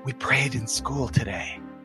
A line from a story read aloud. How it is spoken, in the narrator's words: Sally whispers to Charlie Brown